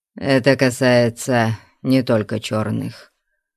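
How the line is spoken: Mutter. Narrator (Russian): пробормотал Амальрик

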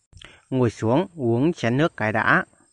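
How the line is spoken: Pleased, smiling speech. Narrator (Vietnamese): Mỉm cười hài lòng, Nhàn Vân lão nói

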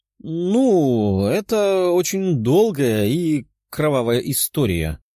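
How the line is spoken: Uncertain reply. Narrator (Russian): неуверенно отвечала Тефия

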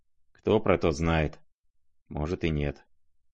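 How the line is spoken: Quiet, to himself. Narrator (Russian): тихо проговорил Рогожин, как бы про себя

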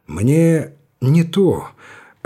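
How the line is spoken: Timid interruption. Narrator (Russian): робко прервал его Александров

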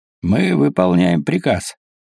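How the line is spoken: Dry reply, pirate. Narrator (Russian): сухо отвечал пират

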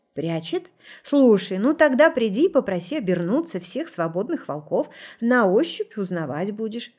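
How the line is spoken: Loud laughter. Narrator (Russian): расхохоталась Рита

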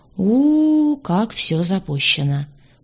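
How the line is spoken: Drawn-out, sympathetic. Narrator (Russian): протянул он, глядя на меня с состраданием

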